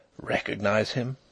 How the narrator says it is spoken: Denry whispered to his wife

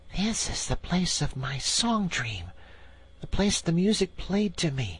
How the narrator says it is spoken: whispered the Rat, as if in a trance

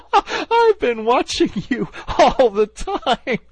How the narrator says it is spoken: she gasped

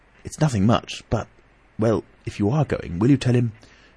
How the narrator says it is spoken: He dropped his voice to a whisper

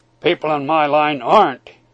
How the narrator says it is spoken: he answered grimly

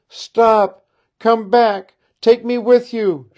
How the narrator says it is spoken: she cried

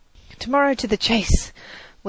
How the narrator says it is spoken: good-night shout, as the circle of merry friends broke up for the night

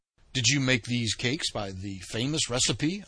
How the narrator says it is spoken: I asked

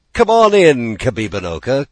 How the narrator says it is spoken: called Shingebiss merrily

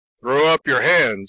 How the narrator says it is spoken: he ordered loudly

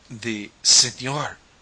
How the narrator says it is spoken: gasped

